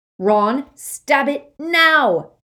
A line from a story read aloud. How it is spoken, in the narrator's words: Harry bellowed